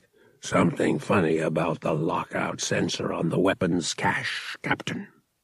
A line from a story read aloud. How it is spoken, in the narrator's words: The huge, shaggy-furred Elamine grunted, then said in guttural basic